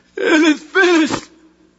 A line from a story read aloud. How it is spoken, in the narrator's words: Jesus shouts out again